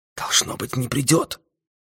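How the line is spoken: Whisper. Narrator (Russian): шепнул один из агентов за его спиной

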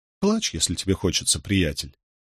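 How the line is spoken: Soft quiet voice. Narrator (Russian): негромко произнесла она

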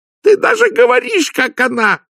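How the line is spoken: Wailing yell. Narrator (Russian): завопила Лакримоза

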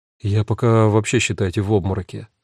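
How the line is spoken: Sigh. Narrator (Russian): вздохнула Люси

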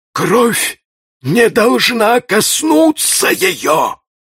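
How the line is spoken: Muffled. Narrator (Russian): сказал он глухо

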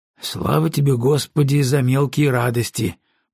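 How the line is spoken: Muttering. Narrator (Russian): пробормотал Маккензи

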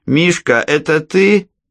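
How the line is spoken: Loud question. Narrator (Russian): громко спросила она

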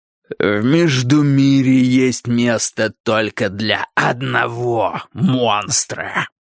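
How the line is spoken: Growled. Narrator (Russian): прорычал МакГилл

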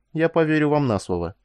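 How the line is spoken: Calm. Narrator (Russian): спокойно ответила она

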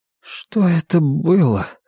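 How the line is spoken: Quiet trembling voice. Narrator (Russian): спросил Том тихим дрожащим голосом

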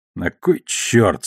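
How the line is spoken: Through gritted teeth. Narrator (Russian): сквозь зубы процедил Холден

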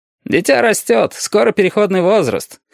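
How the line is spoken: Smirking hum. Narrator (Russian): хмыкнул красный шар

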